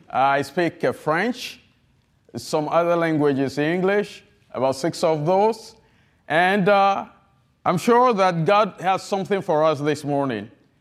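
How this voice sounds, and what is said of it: Heavy French-speaking West African accent. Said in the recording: “I have a heavy accent ... I have a heavy accent. I'm not an American. I'm from the country of Togo, French-speaking”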